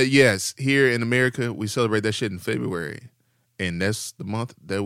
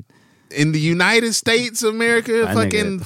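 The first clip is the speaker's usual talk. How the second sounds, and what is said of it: Exaggerated Texas accent. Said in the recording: “Texas ... Accent came out.”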